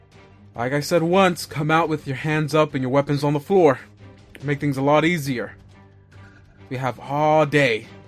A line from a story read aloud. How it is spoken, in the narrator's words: the same guy yell out